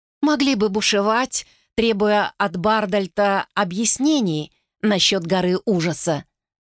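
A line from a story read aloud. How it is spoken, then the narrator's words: Plain. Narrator (Russian): ответила она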